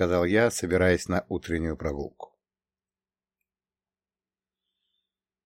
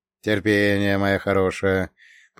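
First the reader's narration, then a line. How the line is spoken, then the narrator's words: Old-man grumble. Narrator (Russian): проворчал я по-стариковски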